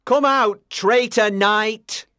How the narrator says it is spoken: shouted Sir Mordred

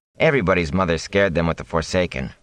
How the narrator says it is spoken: Rand said dryly

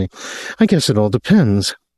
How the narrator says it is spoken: laughed uncertainly

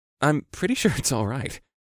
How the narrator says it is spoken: said with a stifled chuckle

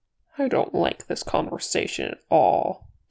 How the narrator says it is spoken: Kili said sulkily

